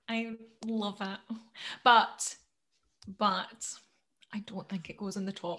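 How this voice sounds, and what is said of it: Essex accent. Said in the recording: “Went like Essex accent again. It was horrible. ... The butt.”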